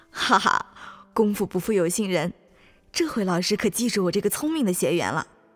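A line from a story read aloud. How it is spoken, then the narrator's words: Happy inner thought. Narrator (Chinese): 心里却高兴极了，心想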